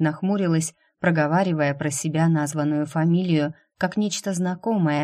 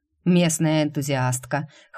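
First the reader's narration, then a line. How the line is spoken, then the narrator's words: Snort. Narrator (Russian): хмыкнул Грег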